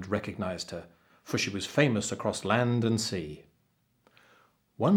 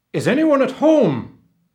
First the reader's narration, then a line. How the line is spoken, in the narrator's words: Grace bellowed